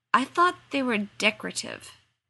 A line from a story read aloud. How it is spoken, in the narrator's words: Sam faltered